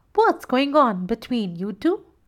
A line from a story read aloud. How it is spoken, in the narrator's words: Uka said